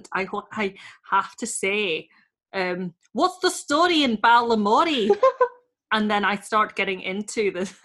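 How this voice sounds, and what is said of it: Attempted accent with Northern Irish tone. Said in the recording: “You've got a bit of a Northern Irish tone there.”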